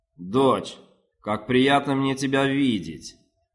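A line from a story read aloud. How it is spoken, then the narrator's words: Thunderous voice. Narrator (Russian): ответил Канеш громовым голосом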